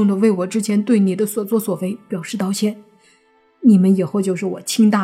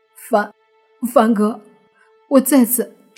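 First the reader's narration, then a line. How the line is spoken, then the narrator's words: Choked, tearful voice. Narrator (Chinese): 他声音哽咽的对莫凡说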